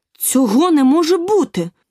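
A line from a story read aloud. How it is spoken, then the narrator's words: Indignant exclamation. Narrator (Ukrainian): обурено вигукнула Аліса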